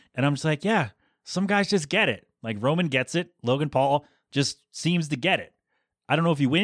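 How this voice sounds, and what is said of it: Usual voice. Nothing is said of it.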